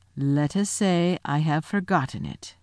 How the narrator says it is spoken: answered Aslan gravely

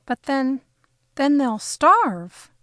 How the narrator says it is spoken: I cried

